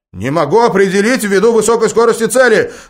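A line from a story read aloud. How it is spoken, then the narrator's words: Tense shout. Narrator (Russian): напряженно выкрикнул один из операторов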